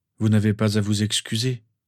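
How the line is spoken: Tired reply. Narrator (French): répondit-il d'un ton fatigué

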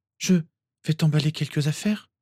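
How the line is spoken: Trembling voice. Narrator (French): fit Lily d'une voix tremblante

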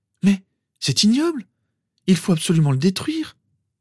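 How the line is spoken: Horrified exclamation. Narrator (French): s'exclama Lily horrifiée

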